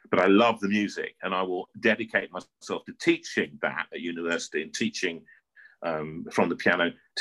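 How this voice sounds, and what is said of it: North London English accent, not posh. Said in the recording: “I'm just a boy from North London, all right? You can hear it, my accent. I'm not posh.”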